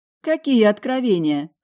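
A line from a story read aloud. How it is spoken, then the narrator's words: Short laugh. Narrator (Russian): хохотнула я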